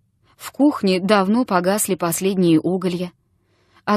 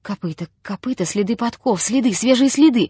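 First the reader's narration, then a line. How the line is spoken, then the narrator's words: Rapid muttering. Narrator (Russian): забормотал он скороговоркой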